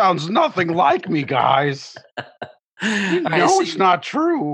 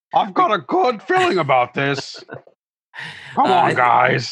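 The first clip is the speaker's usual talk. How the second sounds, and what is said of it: Deep, intense, suspicious character voice. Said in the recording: “the Raytheon voice ... Raytheon kind of has a deep voice, doesn't he? Yes, kind of real intense ... It's a very suspicious voice.”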